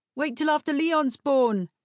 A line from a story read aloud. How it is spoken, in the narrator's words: someone shouted